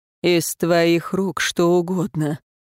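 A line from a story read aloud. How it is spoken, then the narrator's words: Breathy. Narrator (Russian): выдохнул император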